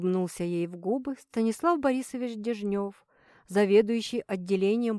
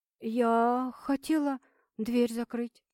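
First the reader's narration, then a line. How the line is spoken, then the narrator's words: Forced out. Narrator (Russian): выдавила Таня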